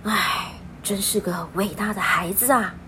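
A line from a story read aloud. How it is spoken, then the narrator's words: Murmuring to herself. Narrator (Chinese): 面包店的阿姨喃喃自语的说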